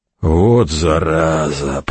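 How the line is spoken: Creaky voice. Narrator (Russian): проскрипел Деодат

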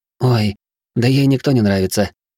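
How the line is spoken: Sighing. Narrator (Russian): вздохнула Травинка

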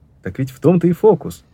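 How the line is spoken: Exclamation. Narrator (Russian): воскликнул Маркоу

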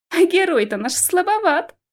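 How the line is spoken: Ringing laughter. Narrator (Russian): звонко рассмеялась Алиса

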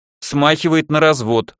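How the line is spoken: Snort. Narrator (Russian): хмыкнул я

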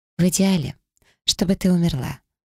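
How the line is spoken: Cheerful, smiling. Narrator (Russian): продолжая радостно улыбаться, заявила она

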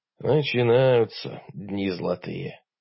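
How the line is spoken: Sighing in unison. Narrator (Russian): дружно вздохнули мы

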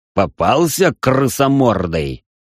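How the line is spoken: Growling. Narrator (Russian): прорычал я

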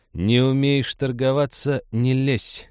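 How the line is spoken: Deliberately loud hiss. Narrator (Russian): нарочито громко прошипела Молли

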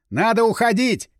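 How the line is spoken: Shouting. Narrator (Russian): крикнул я

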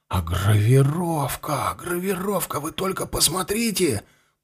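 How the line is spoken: Whisper. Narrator (Russian): прошептал подпоручик

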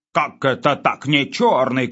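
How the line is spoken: Shouting back. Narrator (Russian): кричал в ответ Выбегало

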